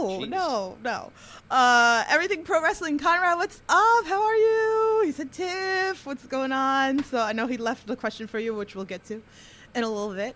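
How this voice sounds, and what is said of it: Queens New York accent. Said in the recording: “in my Queen's accent, okay? My Queen's accent. ... I pronounce everything wrong”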